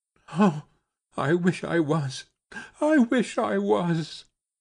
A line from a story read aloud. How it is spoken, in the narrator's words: she sobbed